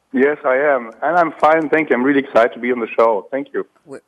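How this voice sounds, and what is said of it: Slightly hoarse voice. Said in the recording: “this is not my normal voice. I'm a little hoarse. I have a hoarse voice today.”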